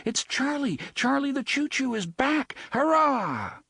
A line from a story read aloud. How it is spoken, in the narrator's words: cried